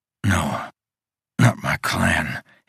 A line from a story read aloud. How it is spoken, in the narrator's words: he muttered